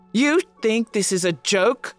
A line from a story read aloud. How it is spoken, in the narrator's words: he roars